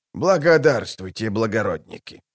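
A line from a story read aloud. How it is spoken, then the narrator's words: Mumbling. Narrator (Russian): промямлил он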